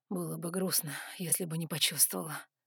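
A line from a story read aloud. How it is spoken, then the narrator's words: Smirking hot breath. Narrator (Russian): усмехнулся горячо выдохнул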